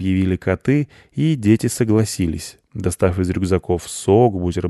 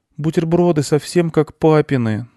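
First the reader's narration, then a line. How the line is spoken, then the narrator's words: Sighing boy. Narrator (Russian): вздохнул мальчик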